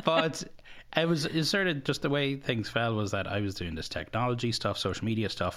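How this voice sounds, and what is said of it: Irish Kerry accent. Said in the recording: “fat Irish guy with a big head and a Kerry accent”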